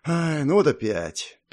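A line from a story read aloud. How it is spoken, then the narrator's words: Sad sigh. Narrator (Russian): печально вздохнул Артур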